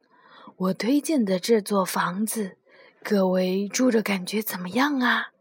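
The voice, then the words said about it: Quiet whispered question. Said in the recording (Chinese): “小声地问道”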